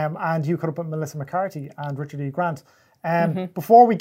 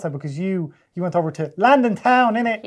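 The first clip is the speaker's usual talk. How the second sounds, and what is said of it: Poor put-on London accent. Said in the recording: “that's a very bad London accent. That was awful.”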